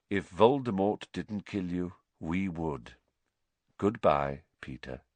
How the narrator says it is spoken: said Lupin quietly

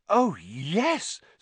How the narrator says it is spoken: said Hermione eagerly

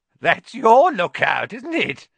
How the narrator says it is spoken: said Filch, his voice cracking with glee

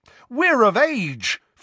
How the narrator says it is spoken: Fred and George bellowed together

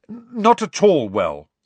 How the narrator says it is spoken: said Harry firmly

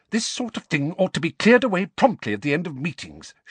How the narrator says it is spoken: she snapped

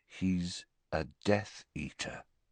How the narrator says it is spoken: said Harry slowly

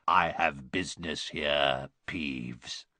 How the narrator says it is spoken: croaked Harry

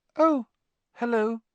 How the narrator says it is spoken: said his voice much higher than usual

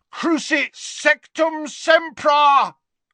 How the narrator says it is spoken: bellowed Harry from the floor

